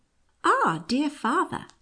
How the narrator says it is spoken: exclaimed Maria at last

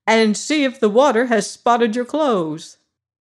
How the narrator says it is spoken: cried my grandfather

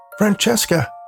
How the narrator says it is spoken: I shouted

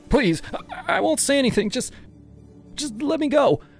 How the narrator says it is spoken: I begged, my voice cracking

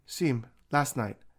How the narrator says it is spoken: she said

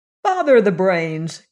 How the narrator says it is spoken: cried Scraps

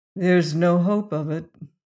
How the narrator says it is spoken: answered Leonard gloomily

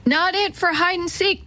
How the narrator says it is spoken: Teddy yelled

